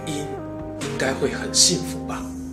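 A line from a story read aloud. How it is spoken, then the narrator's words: Low voice. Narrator (Chinese): 太史慈低声地说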